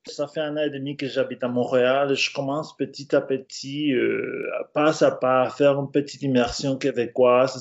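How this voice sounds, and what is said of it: French accent from France. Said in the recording (French): “tu as un accent français. Donc, tu es très français.”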